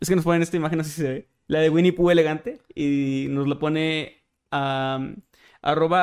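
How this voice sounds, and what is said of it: Usual voice. Nothing is said of it.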